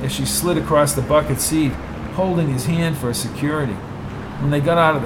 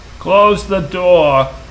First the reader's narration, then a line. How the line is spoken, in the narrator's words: yelled Dupont